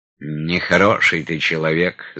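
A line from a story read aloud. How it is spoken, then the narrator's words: Calm remark. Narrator (Russian): заметил спокойно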